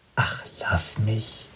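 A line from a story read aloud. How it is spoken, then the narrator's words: Quiet. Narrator (German): sagt Sarah leise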